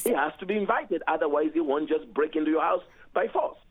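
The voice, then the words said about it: Heavy accent. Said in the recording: “You have a pretty heavy accent”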